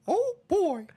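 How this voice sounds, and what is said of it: Mickey Mouse cartoon voice impression. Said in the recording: “my Mickey impersonation ... It's pretty good.”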